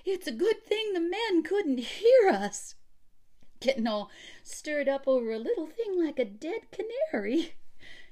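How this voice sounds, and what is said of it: High, false-sounding voice. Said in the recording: “in a high false voice”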